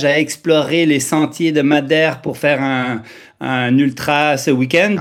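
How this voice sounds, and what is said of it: Swiss-Canadian French accent. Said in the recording (French): “cet accent euh, suisse-canadien ou canado-suisse ... très très canadien comparé à suisse ... mon accent un peu suisse”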